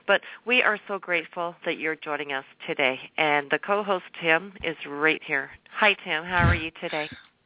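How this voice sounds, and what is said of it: Hoarse voice from laryngitis. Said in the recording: “I apologize for my voice. I have been experiencing laryngitis for the last week ... I'm losing my voice.”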